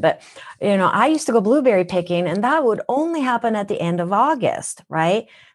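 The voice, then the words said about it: Minnesotan accent. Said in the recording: “That's why I have a Minnesotan accent.”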